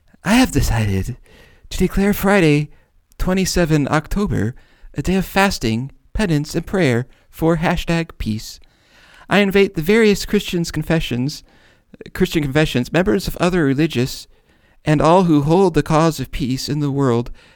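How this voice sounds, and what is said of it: Impression of Pastor Chris Christian. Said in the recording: “do an impression of Chris Christensen reading this. I mean, Chris Christian, Pastor Chris Christian ... do I have to do this like a pope?”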